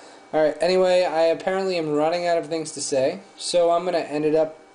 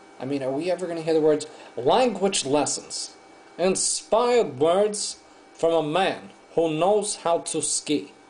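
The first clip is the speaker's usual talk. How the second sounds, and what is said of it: Imitates another person's voice. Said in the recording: “my Howard Cosell imitation”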